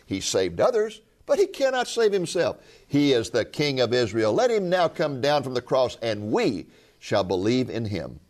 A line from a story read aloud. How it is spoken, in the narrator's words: the chief priests also, along with the scribes and elders, were mocking Him and saying